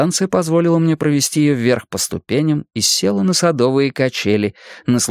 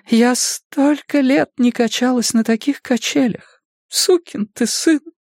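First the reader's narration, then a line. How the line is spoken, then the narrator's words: Sobbing. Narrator (Russian): всхлипнула она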